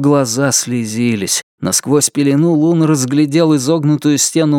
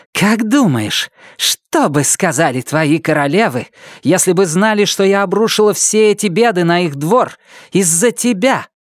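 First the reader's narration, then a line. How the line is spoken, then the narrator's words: Gloating hiss. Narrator (Russian): Со злорадным удовольствием она зашипела и сказала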